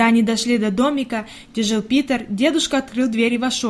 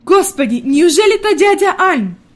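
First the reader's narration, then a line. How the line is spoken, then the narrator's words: Grandmother exclaiming, pleasantly surprised. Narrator (Russian): воскликнула бабушка в приятном удивлении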